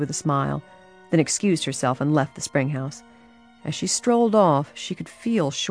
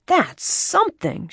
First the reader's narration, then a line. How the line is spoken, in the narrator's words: she exclaimed